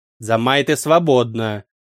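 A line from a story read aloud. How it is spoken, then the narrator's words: Growl, barely controlled. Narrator (Russian): рыкнула Дарк, собрав остатки самообладания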